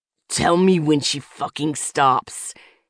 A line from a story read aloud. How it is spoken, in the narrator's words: growled